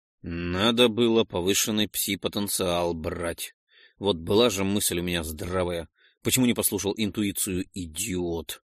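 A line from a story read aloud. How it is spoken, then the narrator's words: Sighing. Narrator (Russian): вздохнул Ролден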